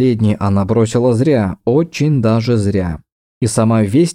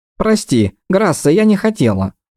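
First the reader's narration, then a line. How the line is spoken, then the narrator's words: Thin mouse-like squeak. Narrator (Russian): пропищала Таеса тоненько, будто мышь из-под печки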